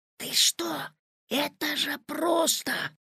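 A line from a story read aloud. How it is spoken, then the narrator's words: Whisper. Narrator (Russian): зашептал Петя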